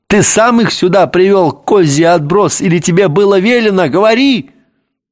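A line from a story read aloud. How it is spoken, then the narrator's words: Yelled at full voice. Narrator (Russian): заорал в голос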